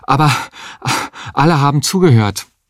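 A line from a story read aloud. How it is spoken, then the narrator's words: Panting. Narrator (German): sagte er keuchend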